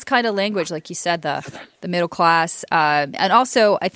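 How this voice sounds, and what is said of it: Usual voice. Nothing is said of it.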